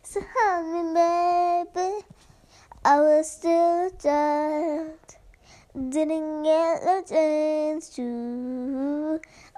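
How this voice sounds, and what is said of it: Sick, strained singing voice. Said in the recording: “I'm so hard for me to sing right now because of my voice ... my voice is not letting me sing right now ... my voice is really bad right now because I'm kind of sick”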